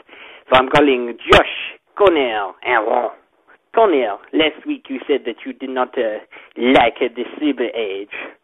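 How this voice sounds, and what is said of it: French accent. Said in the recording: “you wanted a French accent? Well, you got a French accent.”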